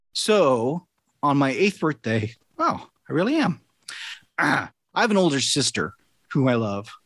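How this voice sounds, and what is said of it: Choked-up, emotional voice. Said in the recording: “I'm getting a little choked up even thinking about it ... I didn't think I'd be getting choked up”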